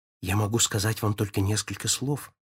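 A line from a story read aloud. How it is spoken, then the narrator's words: Whispered. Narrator (Russian): прошептала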